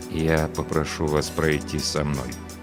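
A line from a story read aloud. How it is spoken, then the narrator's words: Slow, quiet, yet audible. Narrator (Russian): медленно и тихо, но так, чтобы слышали все, произнес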